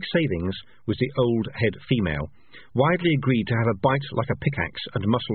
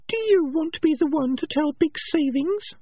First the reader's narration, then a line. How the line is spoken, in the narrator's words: said Peaches, sweetly